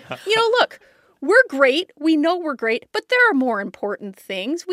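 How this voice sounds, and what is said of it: Iowan Midwestern accent. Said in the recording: “I love the accent that comes out.”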